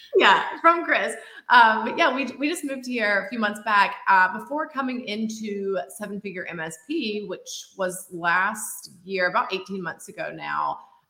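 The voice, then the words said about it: Georgia (Southern US) accent. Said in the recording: “I moved from Georgia, actually. You will probably hear that in the accent”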